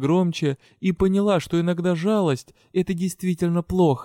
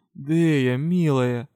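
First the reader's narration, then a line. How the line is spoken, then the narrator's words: Sighing. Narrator (Russian): вздохнул Илахар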